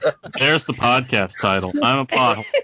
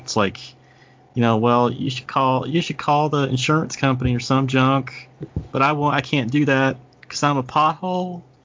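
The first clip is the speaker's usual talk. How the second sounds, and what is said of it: Southern accent, talking pothole character. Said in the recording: “Talking with like a southern accent. Well, I mean, that was a perfect example.”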